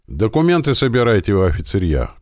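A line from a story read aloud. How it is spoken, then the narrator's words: Shout. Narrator (Russian): крикнул сержант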